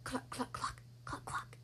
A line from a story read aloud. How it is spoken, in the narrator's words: whispered